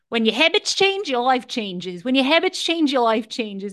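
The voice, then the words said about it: Put-on Australian accent, self-described poor. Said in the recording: “He's Australian, and I'm going to butcher the Australian accent, but I'm going to try it anyway.”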